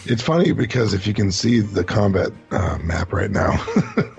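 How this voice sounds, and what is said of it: Hoarse, strained voice. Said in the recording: “You sound like you're losing your voice. A little bit.”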